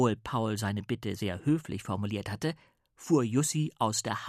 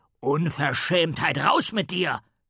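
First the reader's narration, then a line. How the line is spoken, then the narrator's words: Roaring, male. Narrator (German): brüllte er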